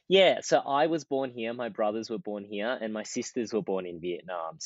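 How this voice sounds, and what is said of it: Strong Australian accent. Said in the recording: “I have a very strong Australian accent compared to my family”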